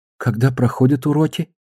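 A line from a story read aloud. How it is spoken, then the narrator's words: Weak, shaken question. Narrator (Russian): Слабым голосом спросила потрясенная Амантис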